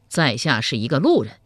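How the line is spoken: Cold voice. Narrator (Chinese): 赵匡胤原本对曹万福就很厌恶，冷声回道

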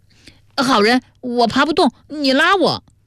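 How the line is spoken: Calling from well bottom. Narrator (Chinese): 孙元在井底叫道

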